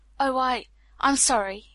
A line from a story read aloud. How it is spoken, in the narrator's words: he stammered